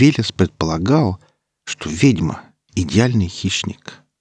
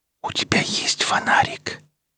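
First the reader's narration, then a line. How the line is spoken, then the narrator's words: Girl's whispered question. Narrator (Russian): шепотом спросила девушка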